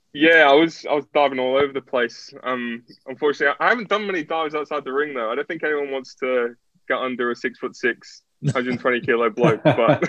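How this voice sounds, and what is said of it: Mixed English-Australian accent. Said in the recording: “my accent's kind of weird. So it goes in and out of between English and Australian ... I've got the English Australian accent”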